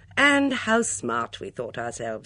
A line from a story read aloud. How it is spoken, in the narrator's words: said Miss Blacklock with a sigh